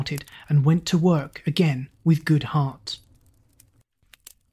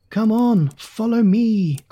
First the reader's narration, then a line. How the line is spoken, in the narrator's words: cried King Harald